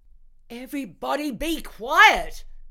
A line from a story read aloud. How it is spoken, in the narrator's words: I screamed